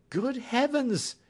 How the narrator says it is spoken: cried my patient

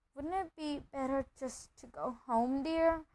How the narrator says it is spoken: Aunt Petunia suggested timidly

